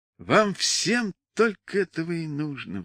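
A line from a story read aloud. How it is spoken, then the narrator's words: Sighing. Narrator (Russian): вздохнула она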